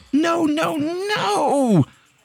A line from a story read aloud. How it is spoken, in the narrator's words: the girl screamed